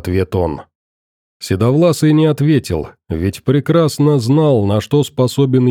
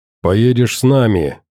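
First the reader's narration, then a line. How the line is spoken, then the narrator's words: Agitated growling. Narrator (Russian): рычал заведенный Аркадий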